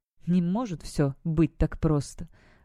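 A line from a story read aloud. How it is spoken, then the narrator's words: Muttering. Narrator (Russian): пробормотал Никлас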